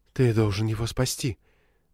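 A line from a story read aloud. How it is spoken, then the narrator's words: Trembling voice. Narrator (Russian): дрожащим голосом произнес Хит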